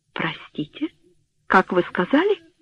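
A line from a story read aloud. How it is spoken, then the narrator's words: Confused question. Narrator (Russian): растерянно спросила Флора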